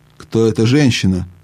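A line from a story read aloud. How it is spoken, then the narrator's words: Plain question. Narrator (Russian): спросила Ядис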